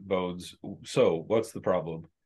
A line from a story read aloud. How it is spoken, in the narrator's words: Arnie say something under his breath in Gnomish